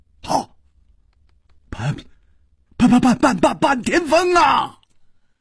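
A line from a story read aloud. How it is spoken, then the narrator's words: Startled cry. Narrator (Chinese): 快被渴死的旅人们……不觉都愣住了……忽然就惊叫了一声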